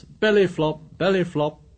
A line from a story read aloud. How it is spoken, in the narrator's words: He shouted